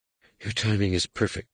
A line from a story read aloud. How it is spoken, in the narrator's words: breathed